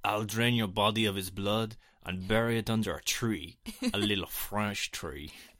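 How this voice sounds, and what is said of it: Mock French accent. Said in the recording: “he says it in a French accent”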